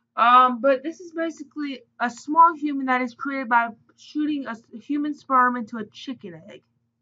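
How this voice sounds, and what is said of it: Speaks with a noticeable accent. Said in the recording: “I know you have an accent, so maybe it may just be distorting it.”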